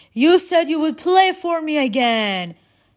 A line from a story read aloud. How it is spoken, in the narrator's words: His voice echoed from cavern walls far away